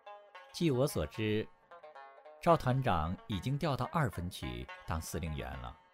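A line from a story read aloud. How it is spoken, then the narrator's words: Light smile. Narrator (Chinese): 东方文音淡淡一笑，说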